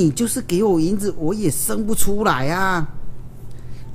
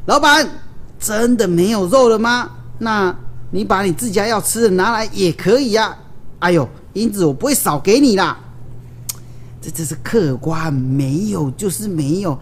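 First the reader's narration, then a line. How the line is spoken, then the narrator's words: Loud shout. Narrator (Chinese): 武松便大声的叫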